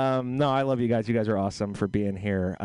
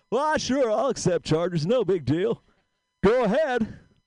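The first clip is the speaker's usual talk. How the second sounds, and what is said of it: Imitates another person's voice. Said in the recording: “I'll do a quick impression here. So here's a quick impression, and you just got to guess who it is.”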